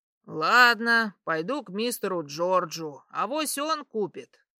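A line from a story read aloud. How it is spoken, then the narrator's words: Muttering. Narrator (Russian): пробурчал мужичок по имени Полат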